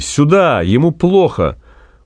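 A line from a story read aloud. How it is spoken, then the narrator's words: Shouting in Russian. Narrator (Russian): Максим закричал по-русски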